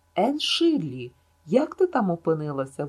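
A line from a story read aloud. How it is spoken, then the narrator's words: Exclaimed. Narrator (Ukrainian): вигукнув Гілберт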